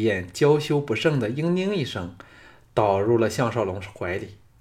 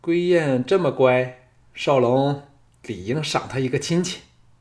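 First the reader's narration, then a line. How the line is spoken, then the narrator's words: Laughing. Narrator (Chinese): 常文君笑说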